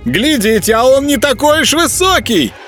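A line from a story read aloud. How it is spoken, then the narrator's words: Thin high-pitched shout. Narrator (Russian): тоненьким голоском крикнул Еропка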